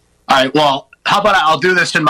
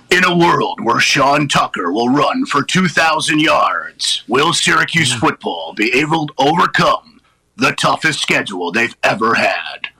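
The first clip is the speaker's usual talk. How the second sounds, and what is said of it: Dramatic movie trailer narrator voice. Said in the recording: “my bad movie trailer voice ... in my movie trailer voice”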